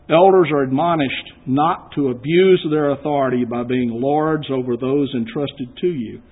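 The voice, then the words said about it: Texan American accent. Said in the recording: “I'm traveling on a Texas passport ... if you didn't know by my accent, I'm not from Chicago ... I'm a native of Austin”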